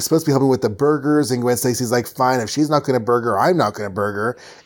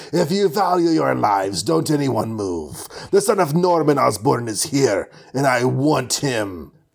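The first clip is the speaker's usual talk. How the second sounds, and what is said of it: Put-on somewhat Russian accent. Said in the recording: “I'm doing a, you know, somewhat Russian accent”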